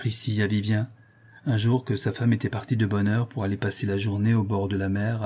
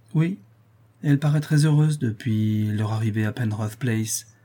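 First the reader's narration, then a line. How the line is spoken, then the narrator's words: Melancholy tone. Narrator (French): répond Vivien d'un ton mélancolique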